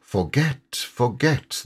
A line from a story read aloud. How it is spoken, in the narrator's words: they sigh, and it dies away in a rustle and a whisper